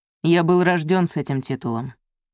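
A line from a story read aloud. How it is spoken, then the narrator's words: Sharp. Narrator (Russian): резко ответил Мерик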